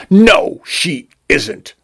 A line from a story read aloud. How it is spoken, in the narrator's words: Vacuol spat